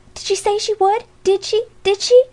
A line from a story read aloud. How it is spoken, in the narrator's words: cried a group of the old girls, as they came tiptoeing in